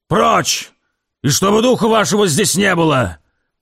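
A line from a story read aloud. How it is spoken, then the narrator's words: Booming from window. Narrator (Russian): Прогремел он уже из окна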